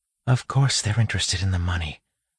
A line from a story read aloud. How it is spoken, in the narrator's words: Marcy whispered back